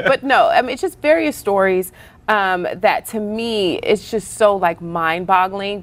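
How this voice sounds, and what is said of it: Speaks with a noticeable regional accent. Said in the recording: “I have an accent, y'all. ... My accent keeps me from being great.”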